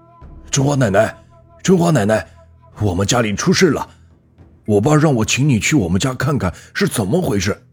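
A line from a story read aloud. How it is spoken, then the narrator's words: Urgent calling out. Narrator (Chinese): 虎子哥连忙上去敲门，嘴里喊着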